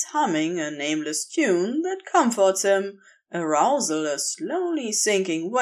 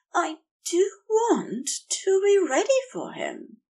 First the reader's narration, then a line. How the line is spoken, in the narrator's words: Xerophil says faintly